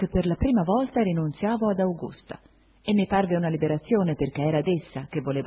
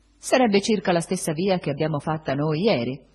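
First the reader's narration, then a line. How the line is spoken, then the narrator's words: Curt, dry. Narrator (Italian): disse seccamente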